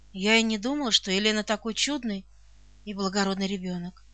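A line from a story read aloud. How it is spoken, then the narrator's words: Affectionate. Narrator (Russian): произнесла ласково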